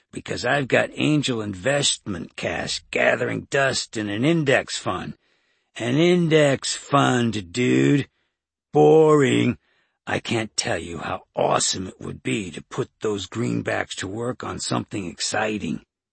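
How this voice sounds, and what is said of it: Exaggerated L.A. surfer accent. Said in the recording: “accent was gone, replaced by an overcooked L.A. surfer accent.”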